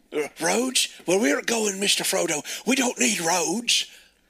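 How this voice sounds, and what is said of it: Poor Shrek character voice imitation. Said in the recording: “doing a shitty Shrek imitation”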